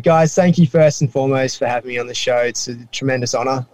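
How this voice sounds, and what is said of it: Australian accent. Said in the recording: “my accent is not from the deep south. It's from Australia.”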